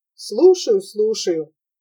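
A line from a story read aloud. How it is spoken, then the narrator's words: Dejected voice. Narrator (Russian): ответил тот удрученным голосом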